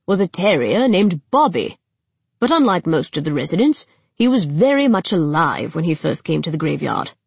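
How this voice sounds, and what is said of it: Posh British accent. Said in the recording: “explains the guide in a posh British accent”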